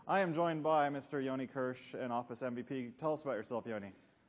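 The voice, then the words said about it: American accent. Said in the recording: “I'm the guy with the funny accent from Microsoft Corp in the United States”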